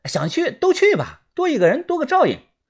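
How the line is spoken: Loud. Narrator (Chinese): 豆芽仔大声的说

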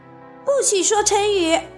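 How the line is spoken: Shouting in unison. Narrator (Chinese): 马小跳他们齐声叫道

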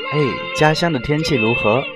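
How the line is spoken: Captivating pleasant voice. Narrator (Chinese): 他的声音瞬间好听到让我的耳朵还有心都纠结起来了

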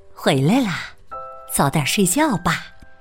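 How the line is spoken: Soft reply. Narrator (Chinese): 妈妈轻声回应

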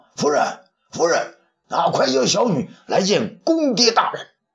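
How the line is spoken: Happy calling out. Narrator (Chinese): 主父偃见东方朔已经上钩，便高兴的叫道

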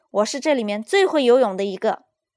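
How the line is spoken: Eager, loud. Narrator (Chinese): 弗洛格热心的大声说

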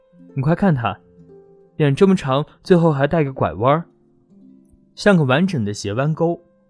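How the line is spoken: Laughing uproariously. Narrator (Chinese): 他突然捧腹大笑

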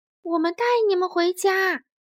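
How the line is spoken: Loud shout, huge creature. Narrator (Chinese): 最大的一头鲸喊道

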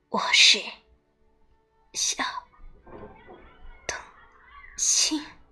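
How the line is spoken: Dying donkey, low reply. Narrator (Chinese): 驴子用驴子话低声回答说

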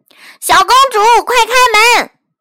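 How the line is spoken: Loud clamoring. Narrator (Chinese): 有人一边敲门一边大声嚷嚷

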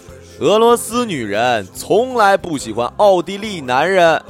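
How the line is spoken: Loud, spiteful. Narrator (Chinese): 朋友恨恨地，故意当着列车员的面大声说

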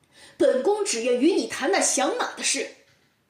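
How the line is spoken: Angry. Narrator (Chinese): 陈世美怒气冲冲地说

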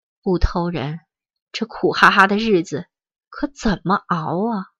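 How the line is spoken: Sighing, leisurely. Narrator (Chinese): 她叹了一口，悠悠地说

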